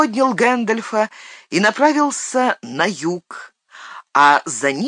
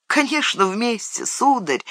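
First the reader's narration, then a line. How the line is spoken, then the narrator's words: Tender reply. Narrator (Russian): ответил Сэм, нежно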